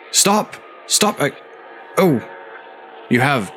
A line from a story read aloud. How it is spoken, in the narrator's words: stuttered